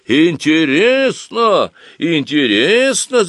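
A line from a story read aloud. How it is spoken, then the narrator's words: Group shouting. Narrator (Russian): закричала вся Оськина компания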